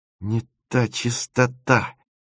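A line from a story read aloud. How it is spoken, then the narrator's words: Muttering. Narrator (Russian): бормотал Тимофеев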